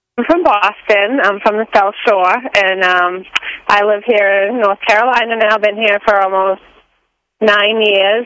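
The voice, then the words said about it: Boston accent with Southern drawl. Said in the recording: “she kind of draws her words out a little like a Southerner would do ... but it's also Boston”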